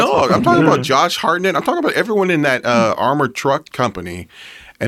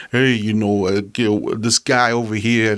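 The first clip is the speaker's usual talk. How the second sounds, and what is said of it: Put-on rough Brooklyn accent. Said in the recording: “rough New York accents, or like a Brooklyn accent, or they're talking like this”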